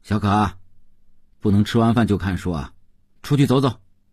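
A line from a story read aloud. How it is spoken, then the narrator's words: Called out. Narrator (Chinese): 邓文轩叫道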